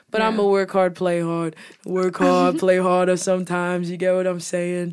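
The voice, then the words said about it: New York accent. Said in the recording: “my accent from New York has progressed immensely since season one”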